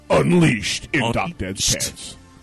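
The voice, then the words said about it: Movie trailer announcer voice. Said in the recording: “I have to do the movie guy voice.”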